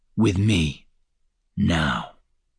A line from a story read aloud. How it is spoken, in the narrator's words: Lucivar said too softly